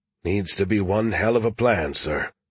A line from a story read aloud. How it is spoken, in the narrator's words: William said quietly